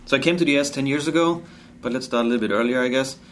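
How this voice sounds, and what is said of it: German accent. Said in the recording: “So I'm German, obviously. You heard that beautiful accent. And I won't get rid of that one.”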